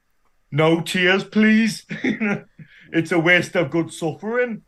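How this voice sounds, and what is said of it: Put-on Geordie accent. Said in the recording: “redubbed Pinhead to have a Geordie accent”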